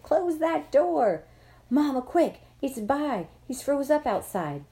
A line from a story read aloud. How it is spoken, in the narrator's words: Mama, Dad, and Joey all yelled